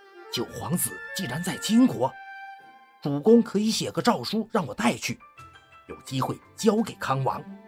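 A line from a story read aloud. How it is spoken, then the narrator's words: Soft voice. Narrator (Chinese): 崔孝一听见四周无人，就轻声地对二弟说道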